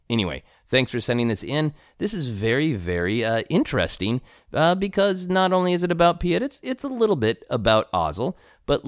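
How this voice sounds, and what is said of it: American accent. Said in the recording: “in my clearly American voice”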